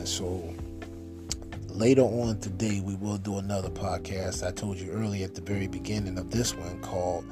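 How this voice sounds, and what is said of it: Tired, less upbeat, stuttering voice. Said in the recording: “I'm just tired ... you don't hear me being as upbeat about it in my voice as what you may be used to ... I'm stuttering over here.”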